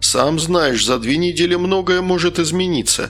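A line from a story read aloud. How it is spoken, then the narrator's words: Feigned regretful babble. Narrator (Russian): сделанным сожалением пролепетал продавец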